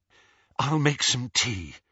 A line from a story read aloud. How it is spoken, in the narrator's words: said Hermione breathlessly